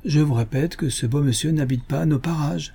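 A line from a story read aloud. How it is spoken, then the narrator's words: Bad-tempered exclamation. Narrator (French): s'écria le colonel d'un ton de mauvaise humeur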